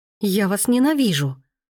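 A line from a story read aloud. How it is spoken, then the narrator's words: Exclamation, suppressed anger. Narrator (Russian): воскликнула Мия, всеми силами пытаясь удержать рвущийся наружу гнев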